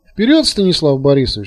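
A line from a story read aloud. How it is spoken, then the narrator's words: Almost cheerful. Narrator (Russian): сказал Тарас почти весело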